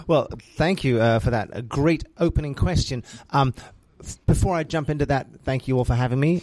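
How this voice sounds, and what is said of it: English-influenced accent. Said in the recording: “the accent belies my Hoosier status... my mum was English and my dad was Australian, lived the formative years of my life in England, hence the accent”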